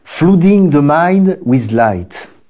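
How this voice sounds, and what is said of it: French-accented English. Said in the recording (French): “pardonné mon accent”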